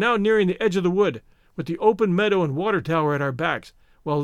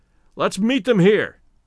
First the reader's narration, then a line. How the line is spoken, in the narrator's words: shouted Stoddard